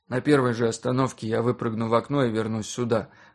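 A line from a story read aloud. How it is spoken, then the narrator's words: Grim joking. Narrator (Russian): мрачно пошутил я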